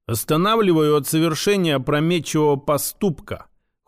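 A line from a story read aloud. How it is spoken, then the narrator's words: Cold reply. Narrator (Russian): холодно ответил я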